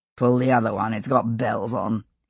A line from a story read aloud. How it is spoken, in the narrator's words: his uncle murmured